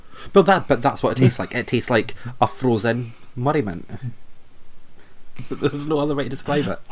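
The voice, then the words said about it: Scottish accent. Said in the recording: “your accent comes out when you say Murray Mint ... I'm from Scotland”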